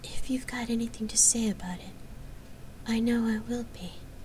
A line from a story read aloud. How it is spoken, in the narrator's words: she murmured